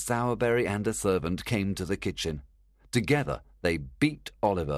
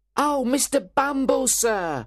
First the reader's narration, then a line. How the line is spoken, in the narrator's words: cried Noah